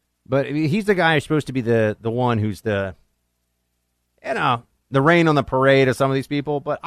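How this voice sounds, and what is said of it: Usual voice. Nothing is said of it.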